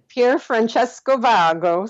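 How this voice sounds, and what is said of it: Put-on Italian accent. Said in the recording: “I'll try to say this with my best Italian accent”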